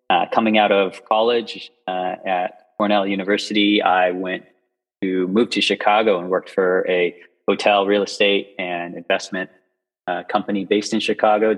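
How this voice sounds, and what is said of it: American accent. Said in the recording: “probably tell by my voice I'm from the U.S. originally”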